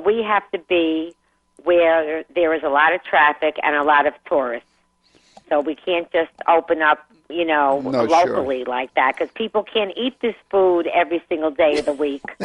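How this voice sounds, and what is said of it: Brooklyn accent. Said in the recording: “where I grew up in Brooklyn, as you could tell by my accent”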